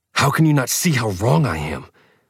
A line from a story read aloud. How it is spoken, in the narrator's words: hissed, too angry to slow the words down into something comprehensible for her